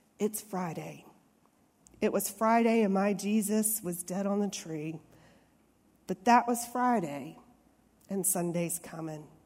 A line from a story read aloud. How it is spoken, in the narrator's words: He started his sermon real softly by saying